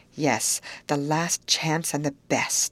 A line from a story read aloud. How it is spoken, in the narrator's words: I whispered back